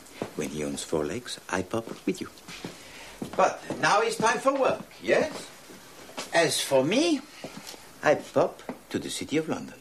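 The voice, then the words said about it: Belgian French accent. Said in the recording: “It's so much better with a French accent, a Belgian accent.”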